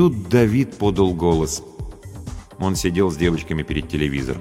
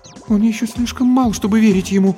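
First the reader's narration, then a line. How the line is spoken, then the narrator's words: Frightened speech. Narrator (Russian): испуганно сказала Антония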